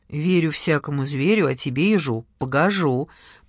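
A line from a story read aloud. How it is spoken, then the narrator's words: Grumbling. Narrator (Russian): проворчала Гелька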